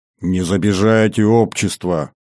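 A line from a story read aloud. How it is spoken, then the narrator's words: Grumbling. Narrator (Russian): ворчал Анфим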